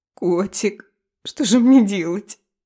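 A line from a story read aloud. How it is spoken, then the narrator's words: Sobbing. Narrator (Russian): рыдала Ева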